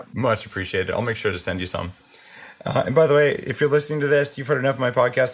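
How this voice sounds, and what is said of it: Slightly hoarse voice. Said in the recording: “So my voice is a little hoarse because I've been throwing up all night.”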